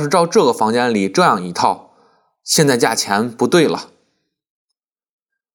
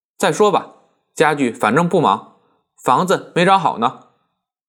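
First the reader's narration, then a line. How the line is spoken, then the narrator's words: Cool, indifferent. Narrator (Chinese): 曼璐只淡淡的说了一声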